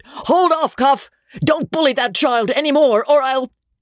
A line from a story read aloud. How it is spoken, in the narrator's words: Dobbin screamed out